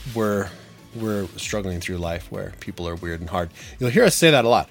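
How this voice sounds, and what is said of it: Weird congested voice. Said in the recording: “Apologies now for the weird voice. I do have a little bit of a cold.”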